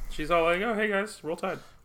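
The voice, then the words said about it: Speaking very quietly. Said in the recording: “that was a really quiet thing that I said. I said it really quietly”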